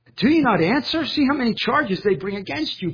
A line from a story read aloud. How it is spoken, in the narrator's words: Pilate exclaims in exasperation